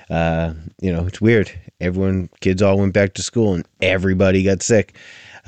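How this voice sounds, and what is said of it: Raspy, slightly hoarse voice. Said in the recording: “Sorry if I'm sound a little raspy and kind of coffee ... I wasn't in top form and my voice”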